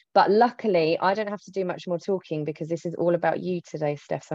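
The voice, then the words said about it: Croaky, tired voice. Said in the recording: “I'm very tired. So if I sound a bit croaky”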